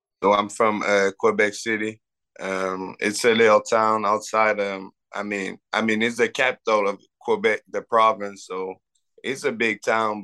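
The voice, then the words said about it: French-Canadian accent. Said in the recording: “we can hear a French accent.”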